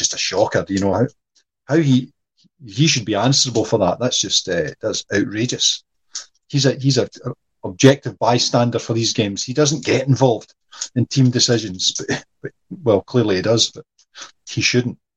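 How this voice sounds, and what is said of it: English accent. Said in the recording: “from England. If you hadn't already guessed with the accent.”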